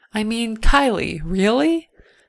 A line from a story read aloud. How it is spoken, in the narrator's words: laughed when she declared